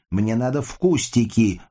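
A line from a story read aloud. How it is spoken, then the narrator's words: Shouting. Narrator (Russian): выкрикнула Сашка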